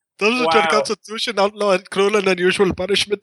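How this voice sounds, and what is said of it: Bad put-on Middle Eastern accent. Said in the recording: “I have a bad Middle Eastern accent.”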